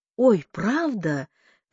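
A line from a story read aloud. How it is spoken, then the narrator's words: Exclaiming. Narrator (Russian): воскликнула она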